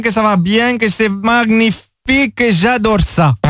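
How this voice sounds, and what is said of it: Put-on Brazilian accent. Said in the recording (French): “Alors que ... il arrive à imiter l'accent brésilien, lui... ça c'est l'accent brésilien, ça, du Brésil.”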